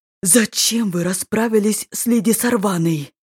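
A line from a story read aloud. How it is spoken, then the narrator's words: Hiss. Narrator (Russian): Продолжал шипеть Кришье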